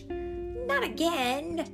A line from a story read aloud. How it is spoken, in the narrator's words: he cried